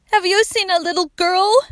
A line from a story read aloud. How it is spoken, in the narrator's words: they gasped